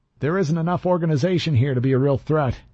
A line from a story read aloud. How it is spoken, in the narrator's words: I said, raising my voice to compete with the crowd